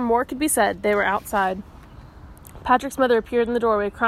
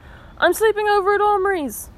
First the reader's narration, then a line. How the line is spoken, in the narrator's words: Patrick yelled back